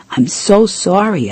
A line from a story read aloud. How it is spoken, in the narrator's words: I exclaimed